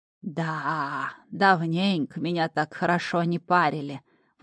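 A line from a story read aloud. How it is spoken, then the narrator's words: Admiring drawl, old man. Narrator (Russian): восхищенно протянул старичок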